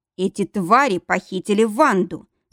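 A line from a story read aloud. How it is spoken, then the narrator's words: Pained growl. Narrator (Russian): с рычанием произнес Каварди, кривясь от боли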